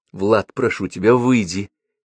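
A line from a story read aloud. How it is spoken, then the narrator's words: Pleading. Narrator (Russian): Взмолилась Марина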